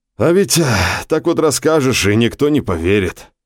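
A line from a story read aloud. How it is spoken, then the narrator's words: Upset sigh. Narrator (Russian): огорченно вздохнул Гео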